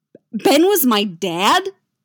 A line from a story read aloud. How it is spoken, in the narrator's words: Luke blurts